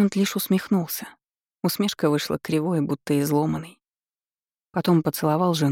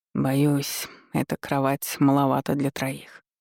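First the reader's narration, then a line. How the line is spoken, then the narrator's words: Flat colorless tone. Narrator (Russian): он произнес бесцветным тоном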